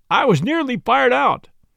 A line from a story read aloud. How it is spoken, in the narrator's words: said furiously